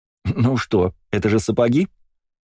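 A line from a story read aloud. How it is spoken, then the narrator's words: Laughing question. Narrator (Russian): смеясь спросила Ева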